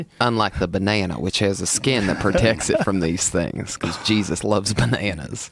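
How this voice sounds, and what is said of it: Put-on Southern American accent. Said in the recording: “You gave him a southern accent”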